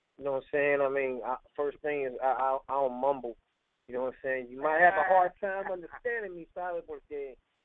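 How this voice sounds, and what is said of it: Mixed Puerto Rican New York accent. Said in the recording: “I might have a messed up accent because it's a little Puerto Rican, a little New York, a little down south, a little Texas right there a little bit”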